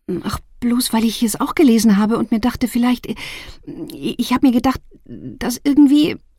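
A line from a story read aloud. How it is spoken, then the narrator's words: Stuttering. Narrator (German): stotterte sie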